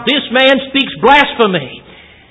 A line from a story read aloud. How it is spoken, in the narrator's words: he cried out